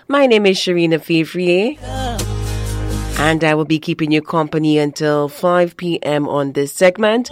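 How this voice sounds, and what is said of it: Slightly nasal, congested voice. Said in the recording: “still not 100%, still a little nasally”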